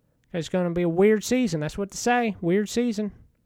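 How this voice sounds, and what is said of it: Speaks with a noticeable regional accent. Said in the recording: “If you can't understand with my accent”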